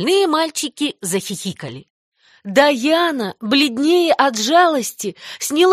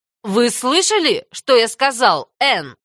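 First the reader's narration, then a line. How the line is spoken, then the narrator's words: Stern question. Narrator (Russian): строго спросил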